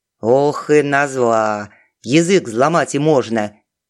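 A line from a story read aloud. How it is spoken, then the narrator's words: Good-natured grumble. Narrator (Russian): беззлобно проворчала она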